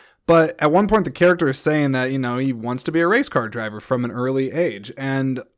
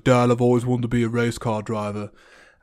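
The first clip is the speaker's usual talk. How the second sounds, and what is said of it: Poor imitation British accent. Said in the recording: “That's a really terrible impression of a British UK person. ... But horrible impression.”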